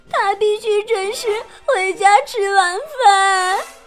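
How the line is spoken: Crying, shouting. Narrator (Chinese): 茉莉也哭着叫

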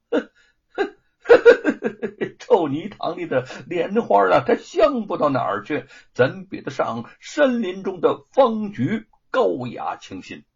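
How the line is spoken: Laughing. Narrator (Chinese): 沈坤笑着说

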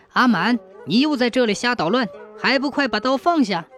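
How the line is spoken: Shouting brothers. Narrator (Chinese): 两个哥哥在旁边大喊

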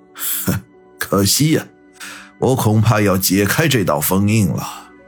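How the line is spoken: Faint smile. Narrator (Chinese): 八爷淡淡的一笑

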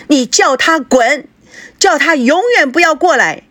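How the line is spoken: Loud shout from inside. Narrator (Chinese): 孙娜 她在房里面大声地喊道

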